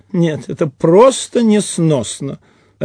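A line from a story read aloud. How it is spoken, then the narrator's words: Sighing. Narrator (Russian): Рас Петрович тоже вздохнул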